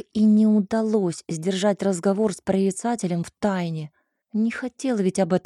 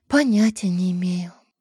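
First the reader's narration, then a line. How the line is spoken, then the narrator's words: Sighing. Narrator (Russian): вздохнула я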